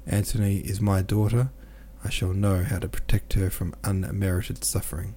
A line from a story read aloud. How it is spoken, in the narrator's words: said quietly and decisively